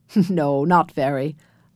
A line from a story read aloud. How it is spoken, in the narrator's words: laughed his grandfather